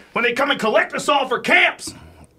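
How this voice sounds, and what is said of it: Alex Jones impression. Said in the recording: “do a good impression of him”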